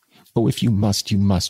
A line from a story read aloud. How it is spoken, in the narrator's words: she said, bursting out into sobs that seemed to tear her heart